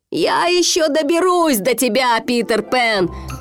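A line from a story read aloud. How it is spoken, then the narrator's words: Shouted after them. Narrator (Russian): крикнул им вслед Крюк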